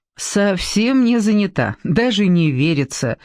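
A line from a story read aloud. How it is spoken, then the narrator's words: Laughing. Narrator (Russian): засмеялась Эстер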